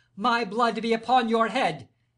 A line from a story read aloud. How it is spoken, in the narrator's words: he cried